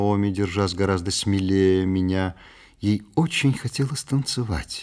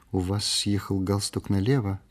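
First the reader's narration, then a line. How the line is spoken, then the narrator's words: Quiet remark. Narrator (Russian): тихо заметила она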